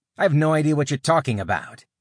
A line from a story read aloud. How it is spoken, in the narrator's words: Alex snapped back